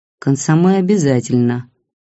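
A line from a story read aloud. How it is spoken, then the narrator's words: Gloomy reply. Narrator (Russian): мрачно ответил Бабкин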